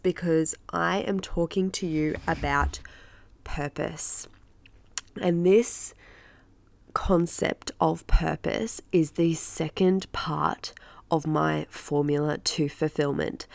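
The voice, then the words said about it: Nasal, congested voice. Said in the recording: “I am not well ... my voice is a little bit nasally today ... my dodgy voice”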